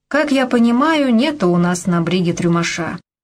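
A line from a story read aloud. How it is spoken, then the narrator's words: Young sailor's clear voice. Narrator (Russian): Молодой матросик Степа сказал из-под шлюпки чистым своим голосом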